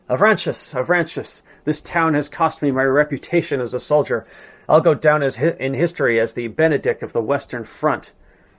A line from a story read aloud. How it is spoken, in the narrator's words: moaning